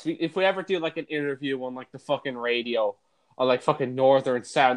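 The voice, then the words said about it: Slight regional accent. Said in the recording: “I do have a bit of an accent.”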